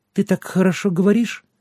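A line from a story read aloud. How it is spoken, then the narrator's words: Thin clear girl's voice. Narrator (Russian): тонким, но отчетливым голоском сказала девочка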